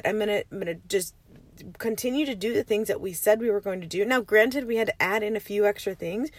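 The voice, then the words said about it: Raspy morning voice. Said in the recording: “You can hear my raspy voice”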